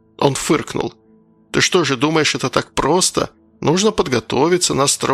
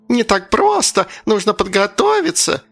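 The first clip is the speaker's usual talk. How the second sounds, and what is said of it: Thin mocking high-pitched voice. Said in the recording (Russian): “тонким голосом передразнила его”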